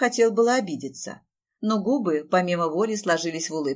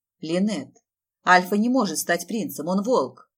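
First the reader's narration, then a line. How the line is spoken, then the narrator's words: Stern rebuke to daughter. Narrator (Russian): строго отдернул дочку Гаррисон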